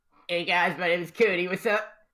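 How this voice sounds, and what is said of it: Cool surfer dude character voice. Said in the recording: “You sound like a cool dude.”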